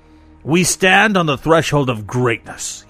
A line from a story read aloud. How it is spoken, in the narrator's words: thundered